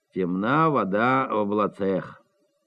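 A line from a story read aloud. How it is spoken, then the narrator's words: Sighing official speaking. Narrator (Russian): Штатный смотритель уездных училищ вздохнул и сказал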